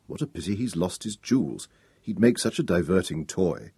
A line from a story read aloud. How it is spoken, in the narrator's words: one of the senior wives murmur to her neighbour